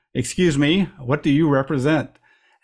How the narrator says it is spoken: a voice boomed out a partial response from above

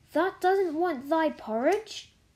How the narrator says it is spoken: Martha exclaimed incredulously

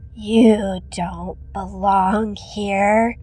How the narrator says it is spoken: said in a low, raspy voice

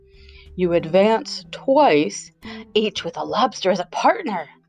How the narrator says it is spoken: cried the Griffin

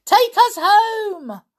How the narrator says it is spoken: Peter shouted

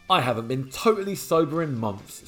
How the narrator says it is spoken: sighs Drain drummer Martina Axon

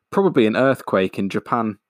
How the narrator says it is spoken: said the mother

